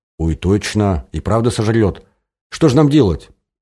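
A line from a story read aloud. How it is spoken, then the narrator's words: Frightened exclamation. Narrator (Russian): испуганно воскликнула Оля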